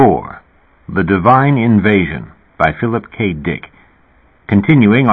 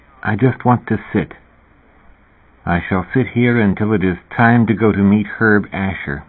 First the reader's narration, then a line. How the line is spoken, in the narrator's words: He murmured